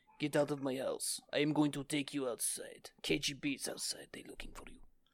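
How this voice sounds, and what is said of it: Imitates a Russian woman's accent. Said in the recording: “you sound just like a Russian woman ... I've been working on my Russian women”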